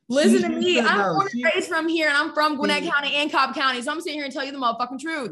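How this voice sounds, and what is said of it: Strong local regional accent. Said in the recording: “you have my fucking accent coming out now”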